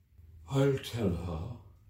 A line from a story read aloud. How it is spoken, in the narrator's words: said the Mock Turtle in a deep, hollow tone